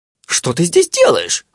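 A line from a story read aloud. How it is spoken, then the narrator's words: Genie's exclamation. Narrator (Russian): воскликнул джин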